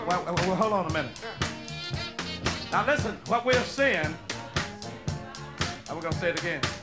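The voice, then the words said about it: Mississippi Southern accent. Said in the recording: “this Mississippi accent I got”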